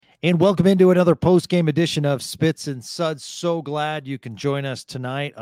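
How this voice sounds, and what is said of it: Confident, playful radio announcer voice. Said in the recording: “a really quality radio voice ... There's a confidence there, but also kind of the sort of radio playfulness”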